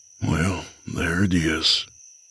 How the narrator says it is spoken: I whispered

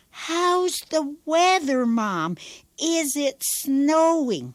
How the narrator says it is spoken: Long distance makes me so nervous I shout

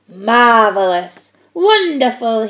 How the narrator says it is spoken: boomed

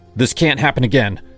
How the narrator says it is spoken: I said, my voice sharper than I meant

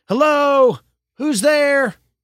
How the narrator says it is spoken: yelled again

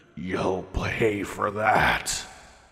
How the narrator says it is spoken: it growled out

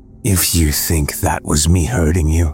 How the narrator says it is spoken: he said in a low tone

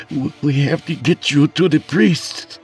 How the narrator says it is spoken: I stuttered feebly

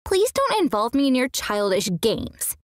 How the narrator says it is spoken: she snapped back

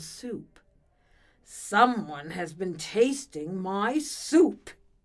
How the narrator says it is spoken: he roared

